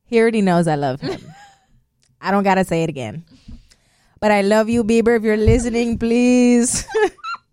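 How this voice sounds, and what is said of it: Filipino-style accent. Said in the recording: “I love this like Filipino accent that you got going on ... It's like a hybrid.”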